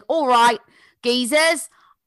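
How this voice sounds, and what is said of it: Put-on Essex Cockney accent. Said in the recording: “he had this Essex accent, which is like basically Cockney accent.”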